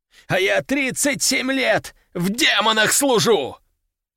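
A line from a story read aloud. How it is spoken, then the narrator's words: Shouting. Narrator (Russian): Он кричал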